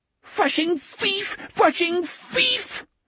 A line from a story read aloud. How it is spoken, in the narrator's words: the spider squealed